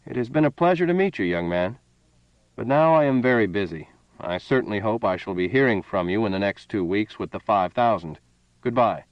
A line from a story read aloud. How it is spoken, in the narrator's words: The colonel said in a level voice